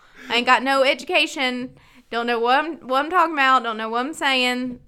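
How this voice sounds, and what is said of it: Put-on Southern hillbilly accent. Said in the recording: “breaking out my hillbilly accent and start talking like I got from the South”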